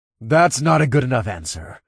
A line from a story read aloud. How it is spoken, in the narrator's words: snarled